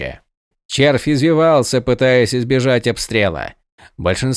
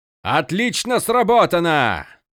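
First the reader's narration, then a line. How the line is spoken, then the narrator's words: Exclamation. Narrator (Russian): воскликнул Крас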